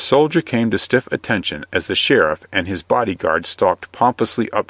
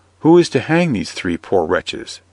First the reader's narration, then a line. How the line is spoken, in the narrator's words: asked the palmer